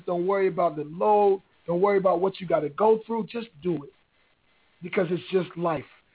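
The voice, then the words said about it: Strained, painful-sounding voice. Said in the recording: “I can't talk. My voice is killing me. It's really hurting to talk right now.”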